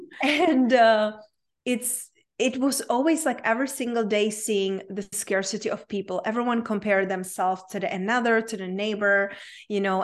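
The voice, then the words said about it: Czech accent. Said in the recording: “I grew up in a very small town in Czech Republic, hence my unpronounceable name and my accent.”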